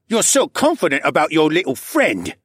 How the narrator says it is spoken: Cad sneered

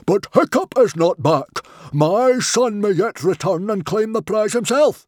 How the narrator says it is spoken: he roared

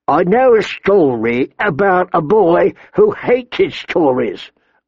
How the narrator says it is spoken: old Nan said with her stupid little smile

